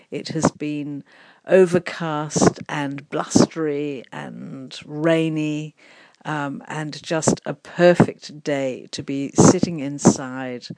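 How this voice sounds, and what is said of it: Slightly strange, unwell-sounding voice. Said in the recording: “As you can hear, my voice is still a bit strange, and I do feel a little bit under the weather.”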